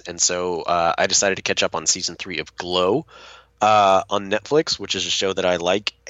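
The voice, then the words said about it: Sick, congested-sounding voice. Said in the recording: “as you can tell by my voice here, I've been sick the past few days”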